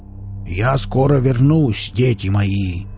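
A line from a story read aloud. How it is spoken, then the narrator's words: Solemn announcement. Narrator (Russian): торжественно объявил Велес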